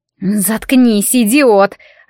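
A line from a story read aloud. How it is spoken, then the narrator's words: Hissed. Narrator (Russian): зашипела на него Нинни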